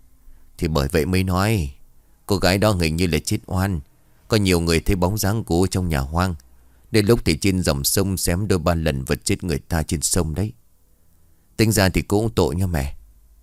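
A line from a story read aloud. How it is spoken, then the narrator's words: Sighing. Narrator (Vietnamese): Bà Chi bấy giờ liền thở dài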